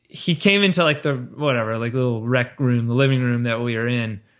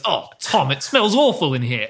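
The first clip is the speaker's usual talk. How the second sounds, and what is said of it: Imitated English accent. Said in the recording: “my dad, he's English. I'm going to do his accent”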